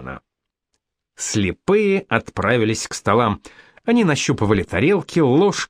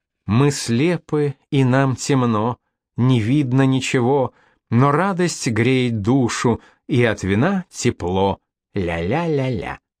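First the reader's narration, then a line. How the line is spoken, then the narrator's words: Desperately sad singing. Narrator (Russian): девушка запела отчаянно печальным голосом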